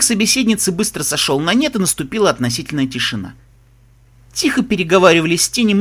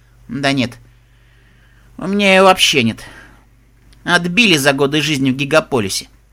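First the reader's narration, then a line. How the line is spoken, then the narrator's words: Gloomy reply. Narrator (Russian): мрачно отозвалась Тиара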